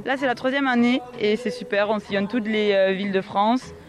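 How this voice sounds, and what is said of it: Slight regional French accent. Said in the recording (French): “vous avez un petit accent quand même, mais c'est pas tout à fait celui de la Bigorre”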